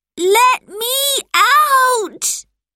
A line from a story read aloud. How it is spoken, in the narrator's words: Robert shouted